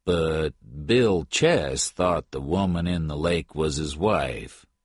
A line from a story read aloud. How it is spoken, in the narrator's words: Jim Patton said slowly